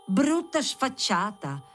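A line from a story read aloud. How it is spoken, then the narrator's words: Exclaiming. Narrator (Italian): esclamò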